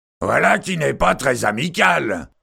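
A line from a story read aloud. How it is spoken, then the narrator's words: Warrior shouting. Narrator (French): cria le guerrier Nadren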